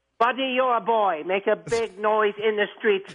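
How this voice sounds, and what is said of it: Put-on accent, higher register. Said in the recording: “Love the accent ... He sounded a higher register ... It was a little higher than it normally is.”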